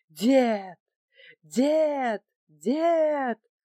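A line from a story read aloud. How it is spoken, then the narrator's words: Strained desperate yelling. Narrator (Russian): с надрывом заорал Василий, даже присаживаясь от натуги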